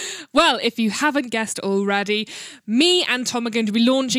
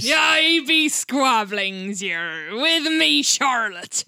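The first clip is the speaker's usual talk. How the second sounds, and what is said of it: Exaggerated pirate accent. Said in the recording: “this accent's getting tedious already”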